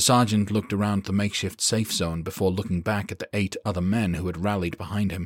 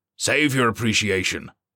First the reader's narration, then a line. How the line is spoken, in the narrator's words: Kipling snapped